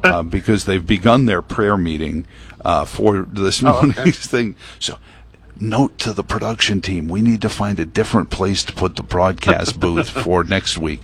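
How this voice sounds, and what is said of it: Hushed golf announcer voice. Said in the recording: “I'm using my golf announcer voice, I feel like, Jim Nance on, the eighth green at Augusta”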